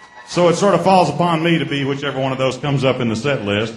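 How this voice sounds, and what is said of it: Mississippi-Alabama Southern American accent. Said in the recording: “I got this Mississippi-Alabama accent”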